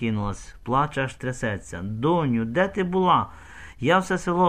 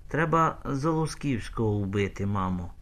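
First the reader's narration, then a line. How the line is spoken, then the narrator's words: Calm. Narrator (Ukrainian): каже спокійно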